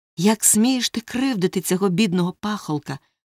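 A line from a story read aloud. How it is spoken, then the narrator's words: Exclamation. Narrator (Ukrainian): вигукнув він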